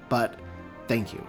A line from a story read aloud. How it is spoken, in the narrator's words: he said curtly